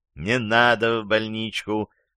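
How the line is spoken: Plain. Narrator (Russian): сказал рваный лось

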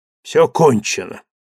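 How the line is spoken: Sighing. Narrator (Russian): вздохнул Врангель

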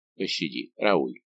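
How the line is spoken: Whispered. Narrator (Russian): шепнул Дегиш

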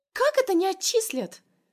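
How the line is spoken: Shrieking. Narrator (Russian): Взвизгивает одногруппница

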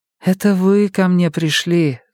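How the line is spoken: Sigh. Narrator (Russian): вздохнула Мия

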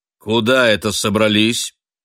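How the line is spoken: Stern headmaster-like question. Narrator (Russian): Строго, как директор школы, спросил Зямка

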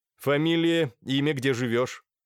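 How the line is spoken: Stern question. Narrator (Russian): спросил строгим голосом

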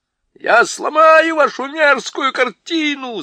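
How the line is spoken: Yelling. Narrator (Russian): заорал Юстас

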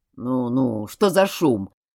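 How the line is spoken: Old sailor grumbling. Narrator (Russian): проворчал старый моряк

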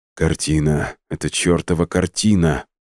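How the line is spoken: Mutter. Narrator (Russian): пробормотал он

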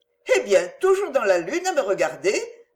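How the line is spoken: Said laughing cheerfully. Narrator (French): dit-elle en riant gaiement

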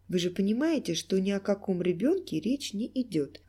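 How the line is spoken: Calm reply. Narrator (Russian): ответил профессор, спокойно

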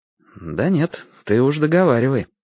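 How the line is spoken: Completely calm. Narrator (Russian): сказал я совершенно спокойно

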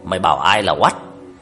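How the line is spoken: Child's gruff, hesitant retort. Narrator (Vietnamese): Đứa bé tự nhiên quát lại bằng cái giọng ồm ồm dè dè

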